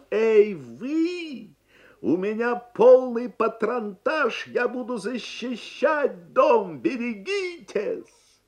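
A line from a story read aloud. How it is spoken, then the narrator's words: Tremendous booming shout. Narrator (Russian): дядя Сандро набрал полную грудь воздуха и закричал своим неимоверным голосом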